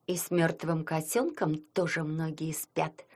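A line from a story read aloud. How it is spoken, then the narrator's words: Sugary sweet voice. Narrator (Russian): сладким голоском произнесла Зализина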